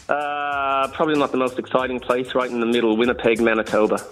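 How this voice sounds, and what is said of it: Accent that sounds Irish. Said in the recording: “Is that a little accent? A little accent. ... Irish? ... I love Irish? An Irish accent. ... Oh, you sound Irish. ... That's so Irish.”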